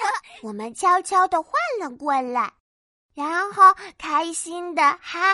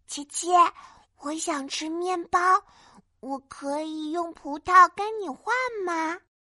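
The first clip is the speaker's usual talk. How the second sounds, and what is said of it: Speaking quietly, hushed voice. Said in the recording (Chinese): “小声的对琪琪说”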